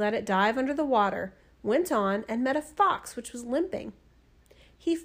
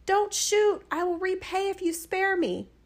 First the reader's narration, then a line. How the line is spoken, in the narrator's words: the fish cried